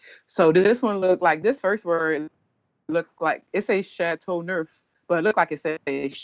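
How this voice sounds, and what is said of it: Usual voice. Nothing is said of it.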